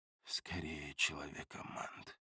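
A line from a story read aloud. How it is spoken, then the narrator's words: Mumbled. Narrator (Russian): пробормотал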